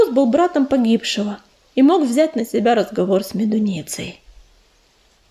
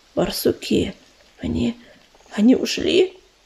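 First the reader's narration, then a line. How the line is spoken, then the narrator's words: Hoarse rasp. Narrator (Russian): прохрипел он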